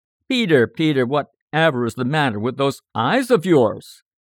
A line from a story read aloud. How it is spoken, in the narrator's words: he exclaimed